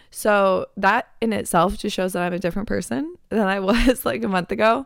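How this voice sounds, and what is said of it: Slightly raspy voice. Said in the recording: “My voice is like a little bit raspy, but it's definitely not like fully gone”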